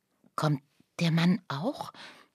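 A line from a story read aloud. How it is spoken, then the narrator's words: Fearful whisper. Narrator (German): flüsterte Lucia ängstlich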